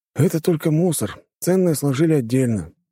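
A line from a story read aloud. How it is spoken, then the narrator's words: Sighing. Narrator (Russian): вздохнул бывший таксист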